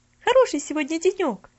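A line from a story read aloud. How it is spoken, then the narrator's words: Exclamation. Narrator (Russian): воскликнула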